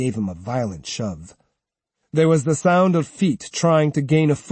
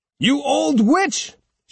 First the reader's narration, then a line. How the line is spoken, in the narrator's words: shouted Uncle Gong angrily